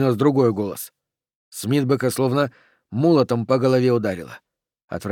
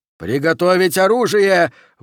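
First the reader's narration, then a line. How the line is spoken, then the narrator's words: Terrified yell. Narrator (Russian): в ужасе завопил Окси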